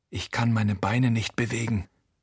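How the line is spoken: Quiet. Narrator (German): Achim sagt leise

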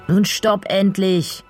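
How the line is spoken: Called out. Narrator (German): ruft Finley neben mir

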